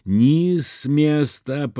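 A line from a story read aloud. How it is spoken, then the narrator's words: Wheezing, hoarse. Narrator (Russian): прохрипел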